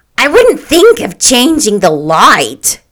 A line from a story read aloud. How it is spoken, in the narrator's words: cried Mrs